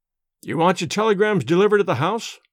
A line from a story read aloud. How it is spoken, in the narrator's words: he asked